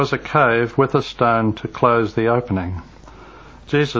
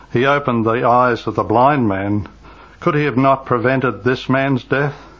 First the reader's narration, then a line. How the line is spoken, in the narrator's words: Still sighing